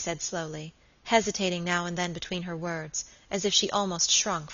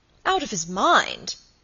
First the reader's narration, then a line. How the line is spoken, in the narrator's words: cried Sir Michael